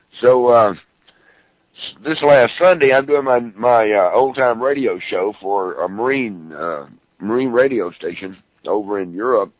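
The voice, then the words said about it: Slightly hoarse voice. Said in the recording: “my throat's a little hoarse, ladies and gentlemen, because I've done four radio shows today”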